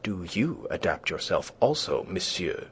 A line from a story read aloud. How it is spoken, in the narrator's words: she retorted angrily